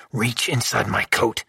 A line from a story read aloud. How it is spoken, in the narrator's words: I whispered as the men closed in